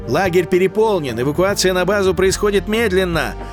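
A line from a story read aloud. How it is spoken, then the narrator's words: Yelling. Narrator (Russian): Орала Хала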